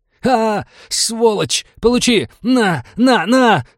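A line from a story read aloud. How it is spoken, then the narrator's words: Furious yelling. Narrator (Russian): заорал напарник убитого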